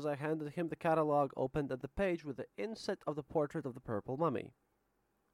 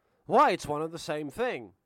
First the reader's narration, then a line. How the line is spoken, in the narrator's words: Suddenly he exclaimed